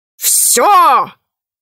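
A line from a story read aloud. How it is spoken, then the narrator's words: Dragon's roar. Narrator (Russian): взревел дракон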